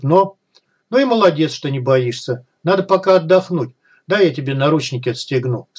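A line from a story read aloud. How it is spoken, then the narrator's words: Calm. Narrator (Russian): спокойно сказал Малахов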